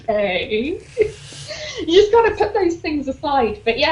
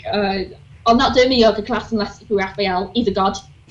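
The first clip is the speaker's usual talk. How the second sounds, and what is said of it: Put-on Leeds accent. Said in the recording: “Leeds accent I can do.”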